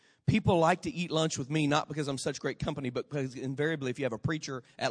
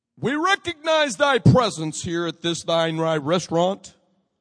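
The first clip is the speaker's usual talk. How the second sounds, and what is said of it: Deep, solemn preacher prayer voice. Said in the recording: “their voice went down like 20 decibels ... weird voice”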